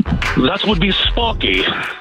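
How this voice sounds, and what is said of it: British-like accent. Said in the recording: “Suddenly got a British-like accent. ... You sound like you're from London.”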